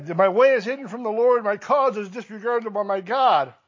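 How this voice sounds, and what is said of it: Whiny voice. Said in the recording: “whiny voice”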